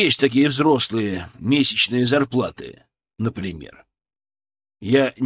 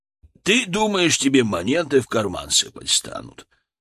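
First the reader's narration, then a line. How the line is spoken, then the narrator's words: Chuckling. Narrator (Russian): хохотнул Хазат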